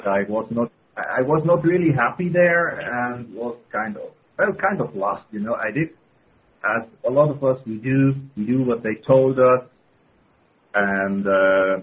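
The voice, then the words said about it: Swiss accent in English. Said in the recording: “you might hear my strange accent. I'm a Swiss”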